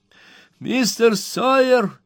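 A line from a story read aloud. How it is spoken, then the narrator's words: Highly excited shout. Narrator (Russian): крикнул мистер Пиквик в крайнем возбуждении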